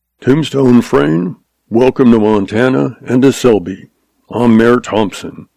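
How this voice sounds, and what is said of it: Soft Texan accent. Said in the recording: “He spoke with a soft accent that branded him a Texas man.”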